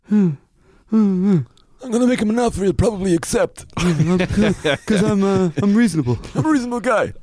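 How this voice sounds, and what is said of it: Wheezy Marlon Brando impression. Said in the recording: “Brando impersonation ... It just sounds like ... it's Stallone with constipation ... Wheezy Irish guys”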